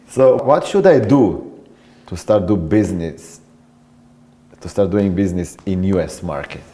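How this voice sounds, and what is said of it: Non-native English accent. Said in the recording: “I'm not native English speaker ... they won't like my accent ... you're easily understandable ... a different dialect”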